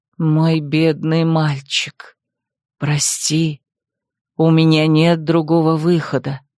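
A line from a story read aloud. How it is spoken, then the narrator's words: Sad whisper. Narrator (Russian): печально прошептала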